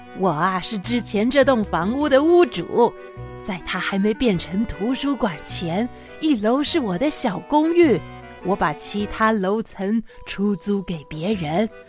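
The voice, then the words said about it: Hoarse old woman's character voice. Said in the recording (Chinese): “他用沙哑的声音说”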